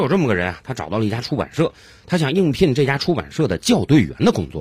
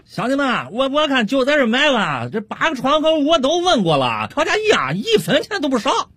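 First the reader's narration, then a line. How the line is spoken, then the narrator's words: Loud shout. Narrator (Chinese): 王老汉一边掏着钱，一边回身冲着他几个老乡大声喊道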